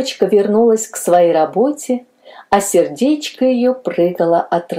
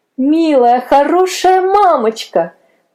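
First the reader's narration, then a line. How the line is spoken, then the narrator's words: Joyful exclamation. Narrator (Russian): воскликнула с радостью Мэри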